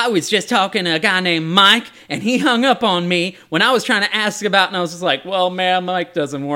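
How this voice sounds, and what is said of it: Usual voice. Nothing is said of it.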